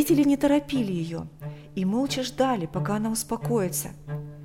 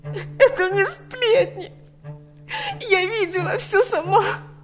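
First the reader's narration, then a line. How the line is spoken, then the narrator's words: Sobbing. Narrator (Russian): Лика не в силах больше сдерживать рыдания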